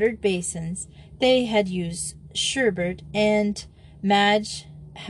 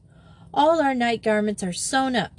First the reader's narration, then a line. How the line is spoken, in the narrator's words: said Simone mournfully